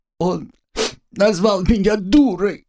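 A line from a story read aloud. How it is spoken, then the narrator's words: Sobbing complaint. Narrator (Russian): Рыдая, поведала о причинах своих слез Агнесса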